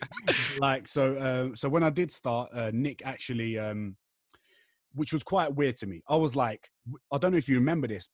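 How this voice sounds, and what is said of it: English accent. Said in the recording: “stupid Pommy accent”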